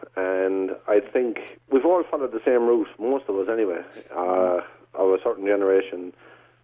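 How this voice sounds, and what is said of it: Slight Irish-American twang. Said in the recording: “You still have a bit of an American twang there ... I can hear it ... You know that Irish-American kind of twang?”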